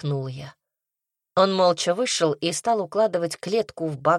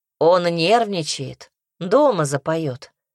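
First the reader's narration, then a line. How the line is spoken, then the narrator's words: Plain. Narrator (Russian): сказал Сережа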